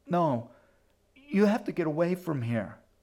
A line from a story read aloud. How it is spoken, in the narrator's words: His sister opened her eyes and gasped